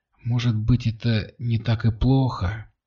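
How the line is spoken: Quiet, detached. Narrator (Russian): Тихо и отстраненно произнесла Кристина

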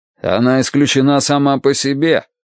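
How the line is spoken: Angry curt remark. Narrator (Russian): сердито бросил Дан Уорти

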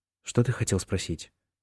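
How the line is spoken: Whisper. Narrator (Russian): прошептал он

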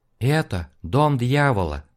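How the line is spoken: Sad female voice. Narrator (Russian): грустно ответил ей тот самый женский голос

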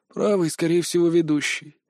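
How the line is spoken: Muttering. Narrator (Russian): Продолжал я бормотать

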